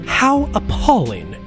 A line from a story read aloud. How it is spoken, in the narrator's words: his mother had exclaimed when she heard the news